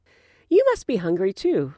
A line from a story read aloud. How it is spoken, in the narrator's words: Ron said cheerfully